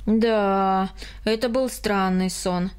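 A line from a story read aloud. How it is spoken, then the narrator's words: Sighing. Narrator (Russian): вздохнул Карл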